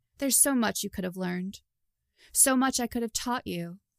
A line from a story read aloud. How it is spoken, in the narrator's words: said, voice becoming a lethal purr